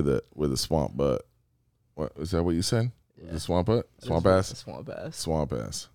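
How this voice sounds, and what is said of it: Usual voice. Nothing is said of it.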